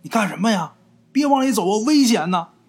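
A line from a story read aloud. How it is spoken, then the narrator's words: Alarmed shout. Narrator (Chinese): 这四人才没忍住，才喊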